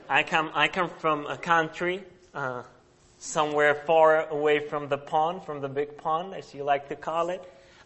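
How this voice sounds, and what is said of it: Czech accent in English. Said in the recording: “As you can probably tell from my accent ... I come from a country called Czech Republic”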